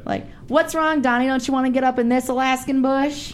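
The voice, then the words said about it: Sarah Palin accent impression. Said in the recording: “I was Sarah Palin. So I did her crazy accent ... got as close as I could to her weird ass accent”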